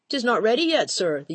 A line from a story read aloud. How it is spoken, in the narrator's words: the young woman replied, her voice quavering